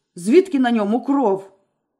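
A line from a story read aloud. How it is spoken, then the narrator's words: Barked, man. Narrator (Ukrainian): гаркнув чоловік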